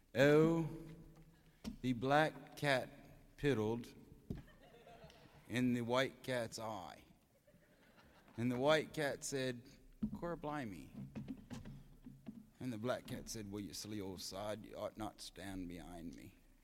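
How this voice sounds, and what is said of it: Broad regional English dialect. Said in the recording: “Just thought I'd give you a little of my own English dialect.”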